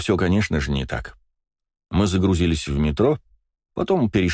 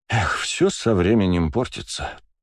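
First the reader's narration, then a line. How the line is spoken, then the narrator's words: Sighing. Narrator (Russian): вздохнул он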